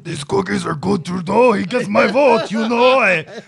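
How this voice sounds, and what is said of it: Cookie Monster voice, French accent. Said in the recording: “Cookie Monster with a French accent? ... Yeah, that's good. That's good.”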